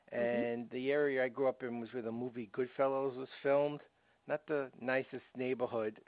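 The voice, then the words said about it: Brooklyn accent. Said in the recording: “I have a bit of a Brooklyn accent.”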